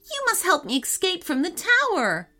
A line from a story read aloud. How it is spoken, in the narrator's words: she shouted